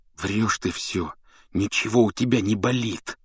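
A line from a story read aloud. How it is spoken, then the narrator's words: Hissed. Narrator (Russian): прошипел он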